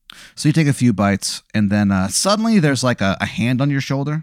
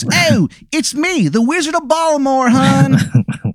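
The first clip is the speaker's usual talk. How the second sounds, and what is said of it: Exaggerated bad Baltimore accent. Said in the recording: “the worst Baltimore accent that you've ever heard in your fucking life”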